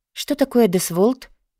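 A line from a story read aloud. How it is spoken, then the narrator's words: Whisper. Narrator (Russian): прошептала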